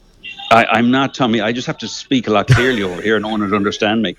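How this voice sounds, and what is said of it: Polished Irish accent, slightly American. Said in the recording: “you're starting to get the American accent ... It's just a very polished, clean Irish accent ... A very, very polished Lecanvy accent”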